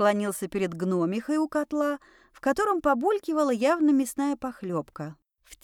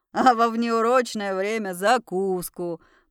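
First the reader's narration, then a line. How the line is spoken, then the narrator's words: Booming, then laughing. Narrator (Russian): прогрохотал он и рассмеялся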